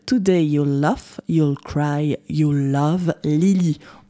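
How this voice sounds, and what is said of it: English accent, well done. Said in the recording (French): “merci pour ton accent anglais ... Il était, il était magnifique”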